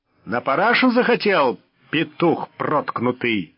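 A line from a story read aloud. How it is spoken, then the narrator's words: Barking. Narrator (Russian): рявкнул расписной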